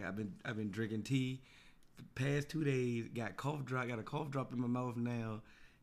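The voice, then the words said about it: Hoarse, raspy lost voice. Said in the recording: “I lost my voice over the weekend, so if I sound like St. Louis from Players Club ... anybody raspy”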